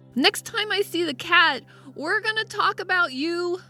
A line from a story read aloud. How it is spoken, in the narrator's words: Blinking back tears, I yelled